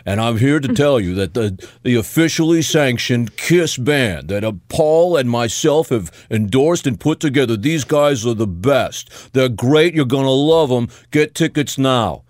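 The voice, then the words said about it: Imitates another person's voice. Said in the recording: “That was a pretty good Gene Simmons impression.”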